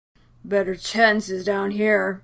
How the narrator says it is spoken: Steve explained, more than a tad slurred

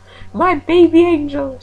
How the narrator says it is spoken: cried

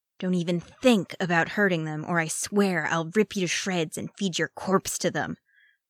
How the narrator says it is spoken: Arcadius growled, spitting as he said it

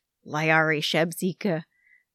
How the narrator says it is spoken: mumbled under his breath

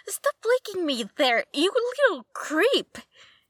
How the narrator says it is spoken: Dick yelped

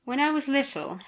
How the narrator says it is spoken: Harry said sleepily

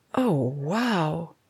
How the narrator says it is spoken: she murmured

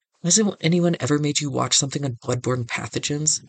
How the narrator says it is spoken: McKay snaps

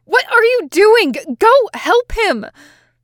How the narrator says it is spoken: he yelled

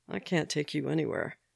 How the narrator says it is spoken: Sam murmured in his ear, suppressed laughter in his voice too

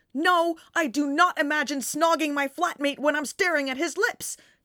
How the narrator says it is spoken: John shouts indignantly

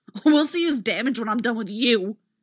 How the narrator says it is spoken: snarls

